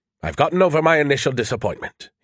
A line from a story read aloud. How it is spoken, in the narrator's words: he said more cheerfully